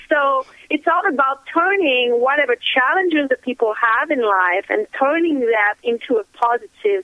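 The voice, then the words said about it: Non-native English accent. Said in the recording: “I barely spoke English... my accent was a weakness... your accent is so cute... I love the accent myself”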